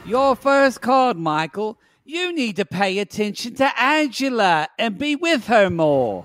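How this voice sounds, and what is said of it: Weird British or South African accent. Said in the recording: “I'm not sure she's British or South African. ... she has a weird accent. ... that's why I'm purposely doing it weird.”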